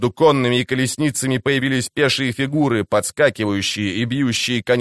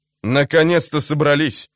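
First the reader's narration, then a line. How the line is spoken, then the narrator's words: Grumbling. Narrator (Russian): проворчал он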